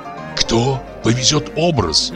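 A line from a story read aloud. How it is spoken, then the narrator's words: Anxious whisper. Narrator (Russian): слышится тревожный шепот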